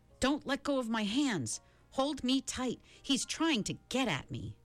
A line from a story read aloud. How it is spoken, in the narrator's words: Charles Wallace said suddenly, and his voice held panic